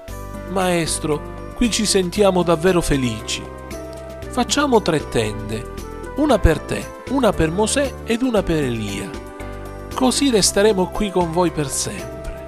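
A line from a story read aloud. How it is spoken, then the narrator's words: Sudden exclamation. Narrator (Italian): Pietro improvvisamente esclamò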